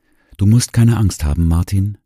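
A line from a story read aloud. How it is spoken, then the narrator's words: Gentle voice. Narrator (German): sagte mit sanfter Stimme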